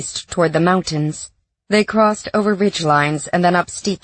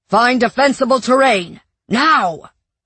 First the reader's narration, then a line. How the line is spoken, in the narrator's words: George yelled